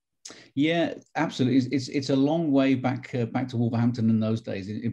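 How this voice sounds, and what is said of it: Non-local accent, not Tennessee. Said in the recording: “as you can tell from my accent, I'm not originally from Knoxville, Tennessee, or the area”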